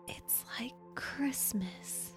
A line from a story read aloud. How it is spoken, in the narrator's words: Maureen gasped